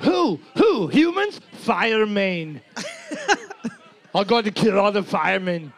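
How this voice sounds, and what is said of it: Put-on accent, well done. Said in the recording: “Do your accent ... You do such a good one.”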